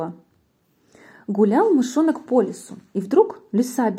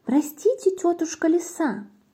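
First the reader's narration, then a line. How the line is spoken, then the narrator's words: Mouse squeaking. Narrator (Russian): мышонок пропищал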